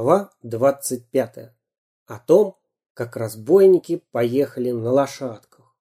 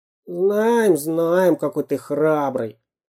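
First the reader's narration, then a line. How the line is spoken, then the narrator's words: Grumble. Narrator (Russian): проворчал шпион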